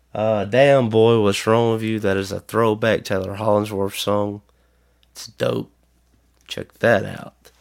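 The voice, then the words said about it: Hoarse voice. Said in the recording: “I'm hoarse.”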